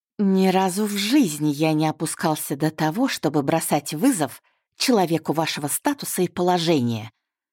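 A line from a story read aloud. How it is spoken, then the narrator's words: Contemptuous hiss. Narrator (Russian): с пренебрежением прошипел незнакомец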